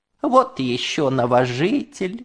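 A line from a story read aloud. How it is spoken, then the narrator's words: Grandmother cooing. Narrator (Russian): ворковала бабушка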